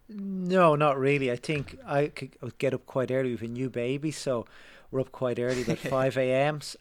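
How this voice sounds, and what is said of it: Irish accent. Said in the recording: “accent gives it away ... I believe that is an Irish accent.”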